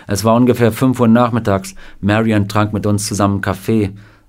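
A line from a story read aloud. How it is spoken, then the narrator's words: Plain. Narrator (German): sagte Sam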